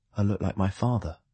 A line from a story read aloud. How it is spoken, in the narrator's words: I said quietly